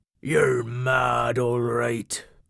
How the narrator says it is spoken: grumbled Cobby

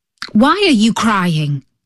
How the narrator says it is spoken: he asked

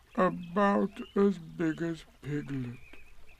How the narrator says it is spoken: he said to himself sadly

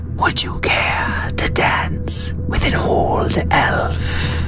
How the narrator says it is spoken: said the Mist Elf teacher in her wispy voice

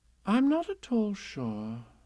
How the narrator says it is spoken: said Kanga in a thoughtful voice

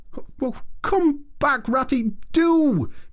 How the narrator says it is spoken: cried the Mole

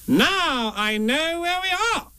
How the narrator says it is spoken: Rabbit said triumphantly

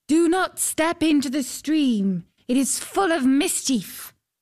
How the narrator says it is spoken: a voice called out

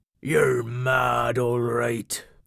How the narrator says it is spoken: grumbled Cobby

